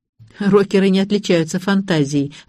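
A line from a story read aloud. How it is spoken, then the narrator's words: Sigh. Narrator (Russian): вздохнула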